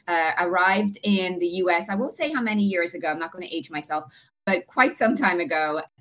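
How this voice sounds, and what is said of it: Irish accent. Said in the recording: “Probably can tell from my accent,... coming from Ireland”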